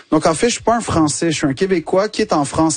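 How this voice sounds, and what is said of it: Québécois French accent. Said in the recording (French): “l'accent québécois ... tu le dis avec cet accent”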